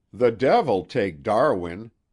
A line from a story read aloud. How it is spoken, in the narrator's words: cried Kent impiously